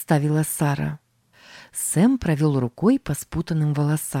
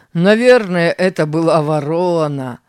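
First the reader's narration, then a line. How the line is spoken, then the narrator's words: Laughing. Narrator (Russian): рассмеялся Тим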